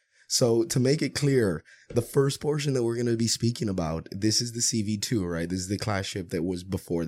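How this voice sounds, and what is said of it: Sick-sounding, under-the-weather voice. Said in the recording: “excuse my voice. I'm kind of under the weather”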